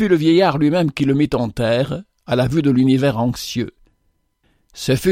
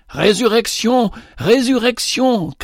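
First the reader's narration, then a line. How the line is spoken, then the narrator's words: Shouts from all sides. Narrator (French): cria-t-on de toutes parts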